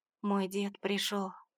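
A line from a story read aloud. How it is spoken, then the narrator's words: Lifeless voice. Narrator (Russian): произнесла безжизненным голосом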